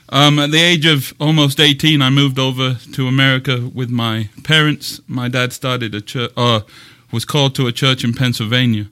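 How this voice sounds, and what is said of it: English accent. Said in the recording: “I'm originally from England. That's why I talk funny ... Just have an accent.”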